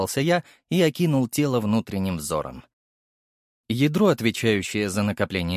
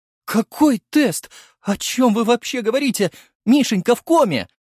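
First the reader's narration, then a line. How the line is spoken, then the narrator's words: Blurted through sobs. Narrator (Russian): Сквозь рыдание выпалила она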